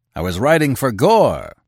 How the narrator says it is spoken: he roared

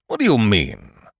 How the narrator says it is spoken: barked Sir Roderick, having had so much to do with loonies as given him a rather sharp and authoritative manner on occasion

